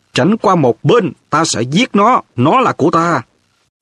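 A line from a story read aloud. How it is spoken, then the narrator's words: Shrill hissing. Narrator (Vietnamese): Giọng Voldemort rít lên the thé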